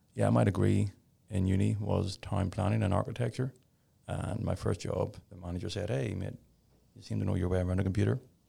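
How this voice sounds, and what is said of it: Irish accent. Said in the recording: “Obviously, I'm an Irish guy, so a bit of an accent.”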